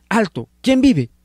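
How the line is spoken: Sentry shouting. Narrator (Spanish): un centinela le gritó

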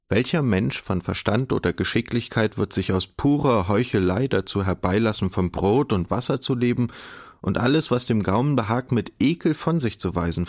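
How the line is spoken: Plain. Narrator (German): fragte er

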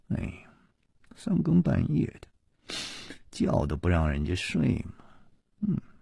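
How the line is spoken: Grumbling mutter. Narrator (Chinese): 两个人都是满脸的不高兴，夜里还喃喃地嘀咕着说

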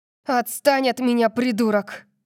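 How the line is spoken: Snarling, struggling. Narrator (Russian): прорычала я, пытаясь оттолкнуть его назад

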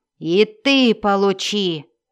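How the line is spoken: Furious dwarf growl. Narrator (Russian): прорычал разъяренный дворф

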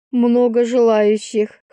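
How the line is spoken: Wry snort. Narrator (Russian): хмыкнула я

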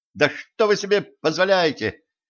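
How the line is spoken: Shouted. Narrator (Russian): крикнула Ленка

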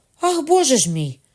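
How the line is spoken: Sharp cry. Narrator (Ukrainian): скрикнула Маргарита

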